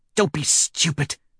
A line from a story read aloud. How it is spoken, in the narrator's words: snarls, with the last of her strength